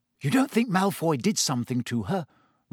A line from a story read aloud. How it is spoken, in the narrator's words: Ron said anxiously